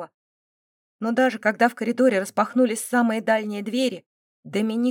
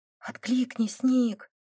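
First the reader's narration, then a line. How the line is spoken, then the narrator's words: Female whisper. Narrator (Russian): шептала она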